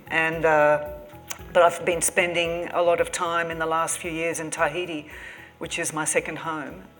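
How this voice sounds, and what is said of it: Australian accent. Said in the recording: “I'm from Sydney, as you can tell from my accent, I say six”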